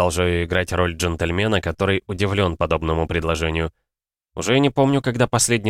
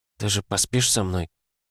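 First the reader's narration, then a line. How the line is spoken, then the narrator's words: Trembling whisper. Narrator (Russian): Дрожащим голоском шепчет Мелисса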